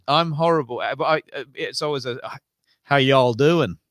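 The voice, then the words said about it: Put-on Southern American accent. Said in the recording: “Can you do an American accent? ... Why do they always go to the southern?”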